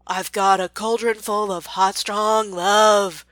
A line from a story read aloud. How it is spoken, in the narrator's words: rang out from a raspy male voice